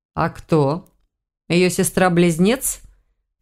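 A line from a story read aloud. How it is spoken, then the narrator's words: Skeptical grunt. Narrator (Russian): хмыкнул друид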